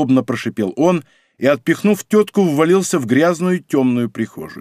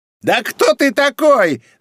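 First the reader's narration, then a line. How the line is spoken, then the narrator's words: Woman shrieking. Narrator (Russian): завизжала женщина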